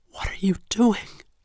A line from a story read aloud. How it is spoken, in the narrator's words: asked in a tense whisper, trying not to move her lips